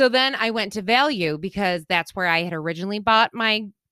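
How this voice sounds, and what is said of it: Usual voice. Nothing is said of it.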